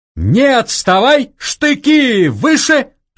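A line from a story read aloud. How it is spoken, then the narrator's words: Thin piercing shout. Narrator (Russian): тонко и пронзительно крикнул он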